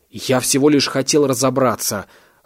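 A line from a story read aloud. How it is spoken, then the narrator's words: Irritated exclamation. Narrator (Russian): раздраженно воскликнул Александр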